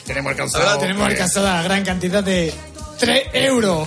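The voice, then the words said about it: Man putting on a woman's voice. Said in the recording (Spanish): “tienes que poner voz de mujer”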